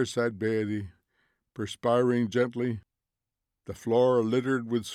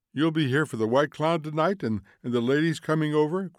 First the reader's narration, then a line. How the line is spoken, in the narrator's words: cried Mildred